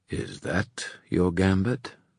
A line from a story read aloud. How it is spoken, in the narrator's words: Gwyn said softly